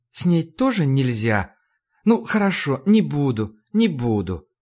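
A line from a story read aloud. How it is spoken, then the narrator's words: Tender, smiling. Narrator (Russian): она столь же нежно улыбнулась мне и сказала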